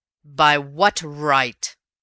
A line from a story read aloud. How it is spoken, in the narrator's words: roared Raffles in a ringing voice, and I never saw his face in such a blaze